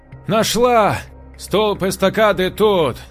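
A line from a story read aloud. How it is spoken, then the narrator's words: Shout. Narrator (Russian): крикнула она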